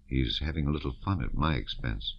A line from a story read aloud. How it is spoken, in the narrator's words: said Yermolov softly